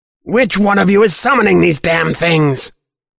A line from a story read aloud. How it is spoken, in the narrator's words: Clock screeches